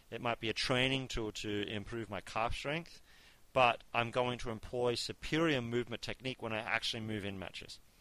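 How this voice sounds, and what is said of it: Speaks with a noticeable accent. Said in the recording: “I could have sworn you said car strength, but I'm pretty sure you said calf strength ... I have an accent.”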